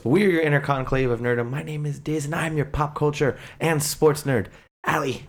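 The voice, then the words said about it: Strained voice, losing it. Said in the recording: “I'm like losing my voice”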